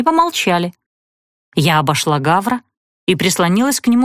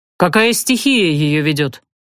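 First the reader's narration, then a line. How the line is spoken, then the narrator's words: Sighing. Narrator (Russian): Зорин вздохнул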